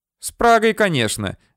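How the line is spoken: Exclaimed. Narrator (Russian): воскликнула она

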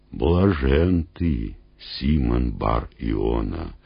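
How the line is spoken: Solemn speech. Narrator (Russian): торжественно проговорил Иисус

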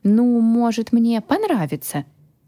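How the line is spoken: Uncertain. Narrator (Russian): неуверенно произнес хранитель

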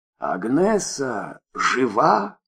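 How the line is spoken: Hoarse. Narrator (Russian): хрипло спросил Николай Петрович

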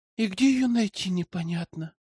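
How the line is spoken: Girl's sigh. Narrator (Russian): вздохнула девушка

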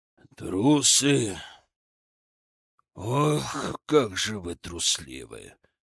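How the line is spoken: Growled. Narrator (Russian): прорычал Хованский

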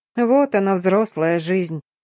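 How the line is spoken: Grumbling. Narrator (Russian): проворчала я

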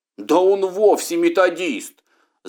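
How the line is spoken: Several voices shouting. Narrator (Russian): закричало несколько голосов

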